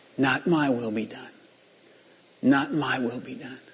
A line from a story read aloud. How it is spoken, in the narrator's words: under his breath, he was saying